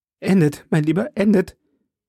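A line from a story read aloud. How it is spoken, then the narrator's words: Called out. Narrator (German): rief D'Artagnan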